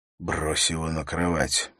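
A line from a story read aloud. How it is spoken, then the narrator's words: Whisper. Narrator (Russian): прошептал он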